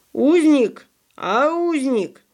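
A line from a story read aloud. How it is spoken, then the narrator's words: Sudden terrible shout, boy. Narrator (Russian): вдруг страшным голосом прокричал мальчик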